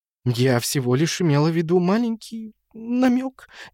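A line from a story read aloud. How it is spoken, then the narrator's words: Uncertain. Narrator (Russian): неуверенно продолжала она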